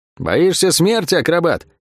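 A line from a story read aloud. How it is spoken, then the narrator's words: Shout. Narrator (Russian): крикнула она ему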